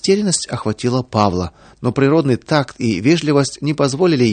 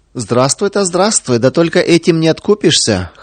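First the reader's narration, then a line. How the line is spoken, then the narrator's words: Laughing women prisoners. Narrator (Russian): хохотали заключенные женщины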